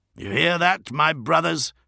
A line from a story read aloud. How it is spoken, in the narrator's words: shouted Ferus Manus